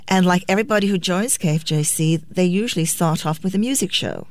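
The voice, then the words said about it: British accent. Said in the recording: “I have to use my British accent.”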